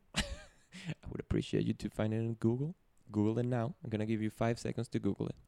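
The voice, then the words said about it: Venezuelan Spanish accent. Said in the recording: “I'm from Venezuela, which is from the Caribbean. That's why I have an accent. So, my main language is Spanish”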